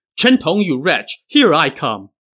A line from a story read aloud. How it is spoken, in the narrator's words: he heard someone shouting from behind